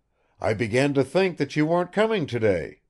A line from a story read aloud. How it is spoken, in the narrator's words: he began in a pleasant voice